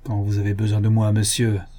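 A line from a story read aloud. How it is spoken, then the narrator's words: Moneylender's muffled voice. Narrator (French): dit l'usurier d'une voix sourde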